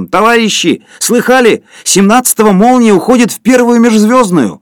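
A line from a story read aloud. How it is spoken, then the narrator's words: Distant ringing tenor shout. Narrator (Russian): Кто-то в другом конце зала крикнул звонким тенором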